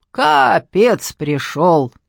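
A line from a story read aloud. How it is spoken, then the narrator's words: Joyful bark. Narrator (Russian): радостно гаркнул работяга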